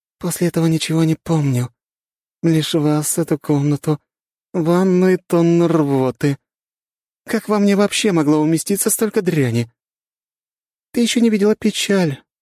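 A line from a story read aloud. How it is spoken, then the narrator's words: Sad, smiling. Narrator (Russian): грустно улыбнулась похоть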